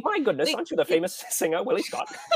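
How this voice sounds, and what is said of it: Put-on British accent. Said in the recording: “Why is he doing a British accent? ... It's so good.”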